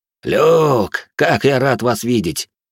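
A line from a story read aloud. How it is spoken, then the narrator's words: Joyful greeting. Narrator (Russian): радостно произнес Бриан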